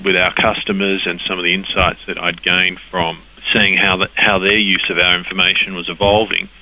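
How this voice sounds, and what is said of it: Australian accent. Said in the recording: “as you might have guessed from my accent, the business did in fact start in Australia”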